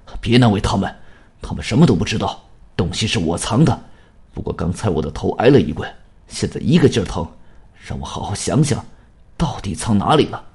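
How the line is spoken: Flustered, hurried. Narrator (Chinese): 青山慌了手脚，他急忙对光头说

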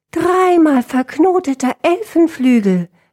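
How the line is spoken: Calling out. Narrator (German): rief Dissonantia

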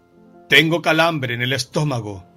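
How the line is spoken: Shrieking. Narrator (Spanish): chillaba Rubén

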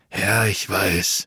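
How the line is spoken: Sighing. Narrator (German): seufzte der eine der beiden Profis

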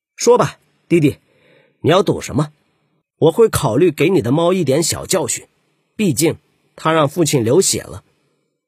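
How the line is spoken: Angry, blurting. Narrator (Chinese): 愤怒的竹赤口不择言

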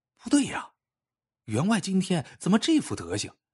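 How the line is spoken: Inner muttering. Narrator (Chinese): 家丁心里嘀咕

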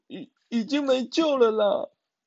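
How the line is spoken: Crying. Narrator (Chinese): 小猪哭着说

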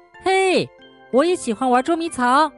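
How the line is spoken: Happy shout. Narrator (Chinese): 高兴的朝他喊

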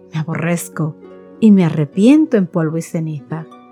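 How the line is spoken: Exclaimed. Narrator (Spanish): Cuando Job oyó la voz del Señor desde el torbellino, exclamó

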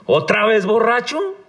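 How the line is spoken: Furious shout. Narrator (Spanish): grita furiosa

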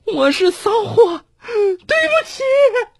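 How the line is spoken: Cold sneer. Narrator (Chinese): 吕婷 一边脱一边冷笑

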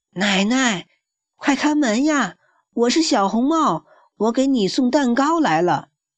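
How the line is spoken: Wolf calling out. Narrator (Chinese): 狼叫道

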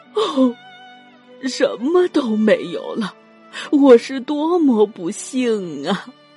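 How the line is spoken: Crying in grief. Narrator (Chinese): 客人们知道了噩耗，都哭着

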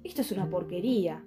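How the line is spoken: Gentleman growling. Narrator (Spanish): gruñó el señor

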